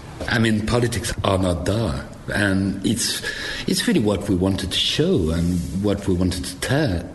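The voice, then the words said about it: French accent. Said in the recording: “a gorgeous, sexy French accent”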